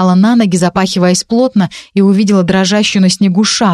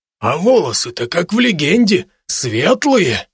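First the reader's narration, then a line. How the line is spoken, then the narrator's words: Thoughtful mumble. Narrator (Russian): задумчиво пробормотал лавочник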